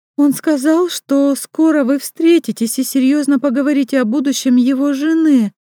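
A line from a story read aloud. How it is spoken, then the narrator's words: Squeaky-voiced report. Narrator (Russian): писклявым голосом докладывает Яна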